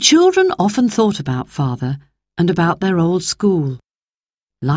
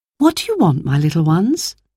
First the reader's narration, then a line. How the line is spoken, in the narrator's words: asked